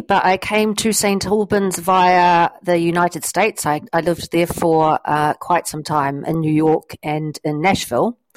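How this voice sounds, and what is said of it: New Zealand accent. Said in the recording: “you're not a local, judging by your accent ... I am a Kiwi”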